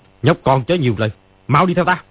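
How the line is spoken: Angry. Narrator (Vietnamese): Ni Ma Tinh tức giận nói

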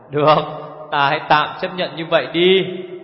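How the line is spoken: Long laugh. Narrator (Vietnamese): Nhất điểm hồng ngẩng mặt lên không, bật cười dài

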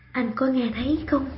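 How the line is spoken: Woman whispering. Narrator (Vietnamese): Cô thì thào

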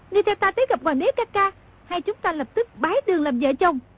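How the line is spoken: Shouted command. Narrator (Vietnamese): Công chúa quát

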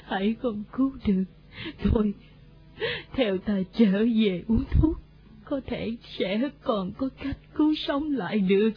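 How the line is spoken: Old woman, tearful. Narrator (Vietnamese): Bà lão khóc lóc kể lể bỗng bảo mọi người

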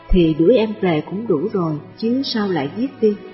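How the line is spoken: Soft smiling reply. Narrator (Vietnamese): nàng ngồi yên, mỉm cười êm ái đáp

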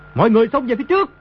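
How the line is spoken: Loud shout. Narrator (Vietnamese): quát lớn

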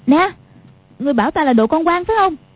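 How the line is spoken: Shout. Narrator (Vietnamese): Quách Phù quát lên

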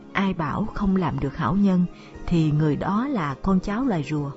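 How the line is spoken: Soft sigh, muttering. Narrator (Vietnamese): nàng khẽ buông tiếng thở dài, miệng lẩm bẩm

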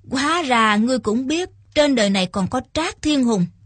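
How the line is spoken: Old man, smiling. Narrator (Vietnamese): Lão già mù mỉm cười nói

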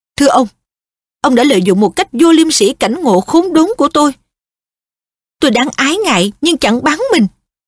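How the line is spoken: Fierce shout. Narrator (Vietnamese): hét lên

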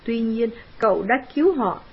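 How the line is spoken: Plain. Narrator (Vietnamese): trùm Cassie nói

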